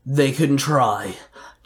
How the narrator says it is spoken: Jarrod growled

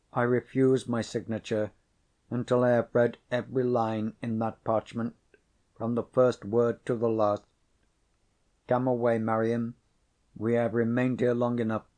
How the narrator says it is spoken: she replied firmly

